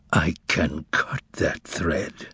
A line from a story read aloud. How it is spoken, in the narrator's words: Pilate shuddered and answered through his teeth